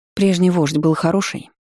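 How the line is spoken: Plain. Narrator (Russian): спросила

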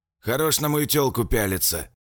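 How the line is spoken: Hoarse voice from side. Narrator (Russian): сбоку хриплый голос

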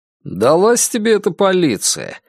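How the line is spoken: Older brother, mocking. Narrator (Russian): насмешливо говорил ему старший брат

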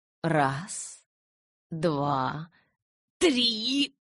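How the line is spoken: Hoarse rasp. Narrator (Russian): прохрипел он

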